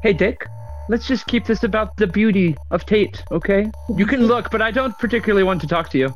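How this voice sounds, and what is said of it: Speaks with a non-American accent. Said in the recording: “are you not American? ... I thought I detected an accent.”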